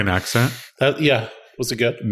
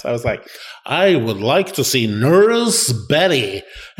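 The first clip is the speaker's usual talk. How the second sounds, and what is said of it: Weird-sounding put-on American accent. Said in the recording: “That's your American accent? ... Sounded so weird. ... Like John Wayne. ... She didn't understand a word I said.”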